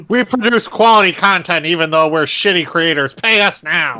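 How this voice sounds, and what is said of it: Imitates another person's voice. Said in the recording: “That was my Bad Bunny impression.”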